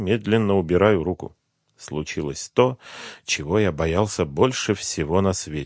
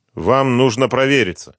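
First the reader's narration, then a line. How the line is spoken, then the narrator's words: Angry. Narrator (Russian): уже сердито сказал он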